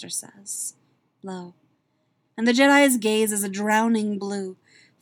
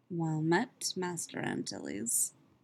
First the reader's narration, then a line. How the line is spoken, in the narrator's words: Jaster says softly